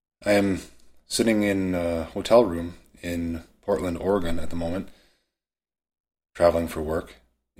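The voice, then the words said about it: Scratchy voice, sounds like a cold. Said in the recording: “my voice sounds a little scratchy. I've got a bit of a cold”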